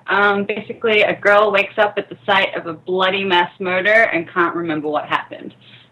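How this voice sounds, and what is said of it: Noticeable accent coming through. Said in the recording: “Your accent just came out. We could hear it. I loved it.”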